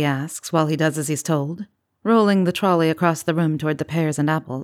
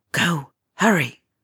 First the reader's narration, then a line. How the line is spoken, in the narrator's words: he commands in a whispered shout